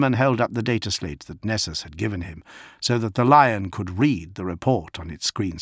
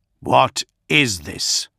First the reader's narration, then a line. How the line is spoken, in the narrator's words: Gilliman snarled